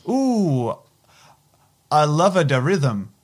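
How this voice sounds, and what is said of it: Put-on Chinese accent. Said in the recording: “she said in an accent ... We know it was Chinese.”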